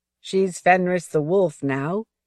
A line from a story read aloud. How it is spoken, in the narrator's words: he called up to his mother, his voice ringing through the hot afternoon with the faintest edge of laughter